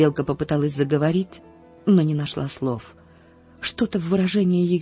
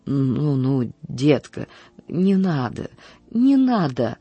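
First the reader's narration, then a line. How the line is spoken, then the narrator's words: Strained, barely forced out. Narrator (Russian): еле выдавила из себя сиделка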